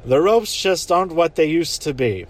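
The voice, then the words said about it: Bad impression of Nigel. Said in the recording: “That's a really bad impression.”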